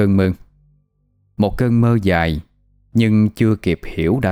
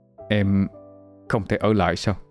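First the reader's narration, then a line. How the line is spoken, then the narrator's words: Choked, tearful voice. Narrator (Vietnamese): giọng nghẹn ngào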